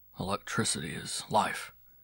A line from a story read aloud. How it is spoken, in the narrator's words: he would murmur